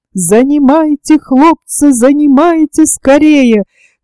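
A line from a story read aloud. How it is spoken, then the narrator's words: Shouting. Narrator (Russian): кричал он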